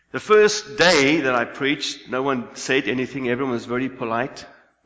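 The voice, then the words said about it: Speaks English with a noticeable accent. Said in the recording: “people had to get used to my accent”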